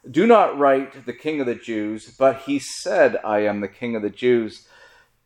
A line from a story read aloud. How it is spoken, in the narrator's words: Pilate answered